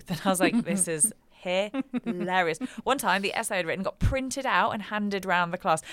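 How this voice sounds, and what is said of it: British accent. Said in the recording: “everything in your accent just sounds like the gospel truth ... it was the British girl's essay”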